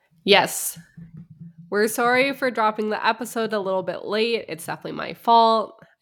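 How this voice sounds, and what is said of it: Sick-sounding voice. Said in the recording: “I've been very sick. I don't know if you can tell in my voice”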